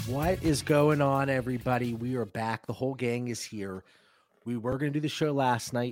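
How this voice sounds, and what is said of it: Sick, congested voice. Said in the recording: “my kids were sick. And as you can hear in my voice, they got me.”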